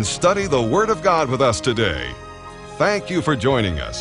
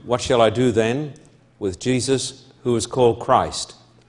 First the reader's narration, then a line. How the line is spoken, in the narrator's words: Pilate asked